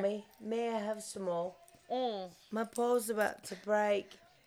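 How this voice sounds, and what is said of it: Put-on British child's voice. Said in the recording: “Like, to me, he might have been a pretty poor British boy.”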